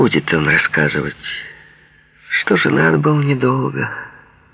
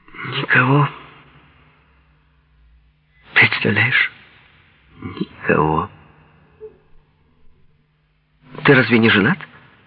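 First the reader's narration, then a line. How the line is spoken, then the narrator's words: Soft and sad. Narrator (Russian): Он ответил мягко, печально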